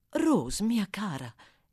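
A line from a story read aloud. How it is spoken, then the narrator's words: Lady exclaiming. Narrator (Italian): esclamò la signora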